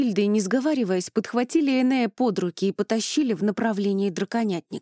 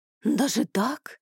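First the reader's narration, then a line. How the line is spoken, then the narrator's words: Admiring breathless exhale. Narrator (Russian): восхищенно выдохнул он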